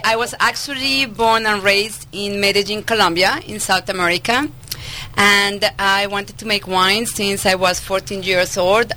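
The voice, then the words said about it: Slight Colombian Spanish accent. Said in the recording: “you don't sound like you're from around these parts ... I have a little accent ... Just a uh, little”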